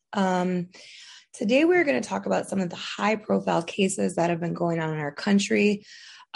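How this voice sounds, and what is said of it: Voice sounds a little off. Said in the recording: “My voice is a little off today”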